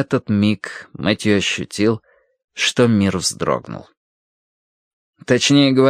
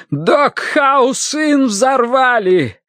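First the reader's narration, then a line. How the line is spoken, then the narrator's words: Shout. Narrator (Russian): крикнул он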